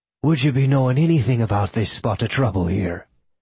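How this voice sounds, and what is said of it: Faux Irish accent. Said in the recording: “in his best faux Irish accent tinged with ancient Icelandic”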